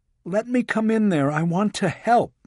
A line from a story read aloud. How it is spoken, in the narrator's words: Walling pleaded